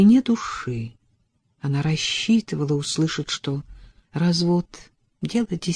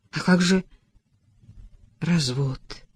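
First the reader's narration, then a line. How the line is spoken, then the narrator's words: Crestfallen voice. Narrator (Russian): упавшим голосом произнесла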